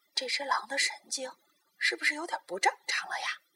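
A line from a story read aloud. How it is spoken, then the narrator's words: Very hushed voices. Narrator (Chinese): 他们都把声音压得很低很低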